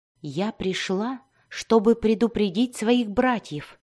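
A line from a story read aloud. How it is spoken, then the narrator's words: Quiet explanation. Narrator (Russian): тихо объяснила она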